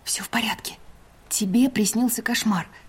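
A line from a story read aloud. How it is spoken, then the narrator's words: Soft gentle voice. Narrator (Russian): мягко произнесла я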